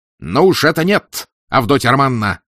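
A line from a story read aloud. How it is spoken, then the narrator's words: Piercing shout. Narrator (Russian): пронзительно выкрикнул Раскольников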